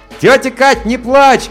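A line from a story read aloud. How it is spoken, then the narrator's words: Shout. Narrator (Russian): крикнул я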